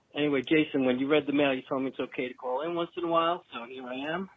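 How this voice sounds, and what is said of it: Heavy New York accent. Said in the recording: “I know the New York accent's probably pretty heavy”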